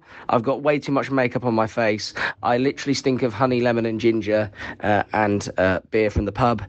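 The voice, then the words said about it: Sore, strained voice. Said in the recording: “My voice is sore”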